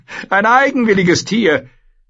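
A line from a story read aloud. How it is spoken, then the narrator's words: Young man laughing. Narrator (German): sagte ein stattlicher junger Mann lachend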